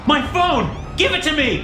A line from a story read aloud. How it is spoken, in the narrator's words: Donovan shouted